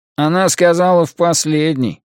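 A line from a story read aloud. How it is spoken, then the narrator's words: Gloomy. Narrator (Russian): мрачно сообщил маньяк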